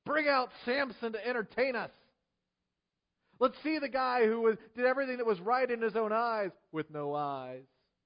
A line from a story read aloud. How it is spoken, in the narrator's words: While they were in high spirits, they shouted